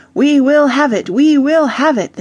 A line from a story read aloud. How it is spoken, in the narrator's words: they cried